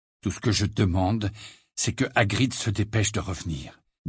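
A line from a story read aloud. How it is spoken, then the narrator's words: Low voice. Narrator (French): dit Harry à voix basse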